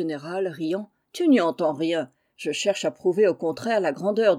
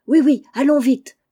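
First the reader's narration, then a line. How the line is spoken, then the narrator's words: Exclaiming together. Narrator (French): s'écrièrent Juliette et Anne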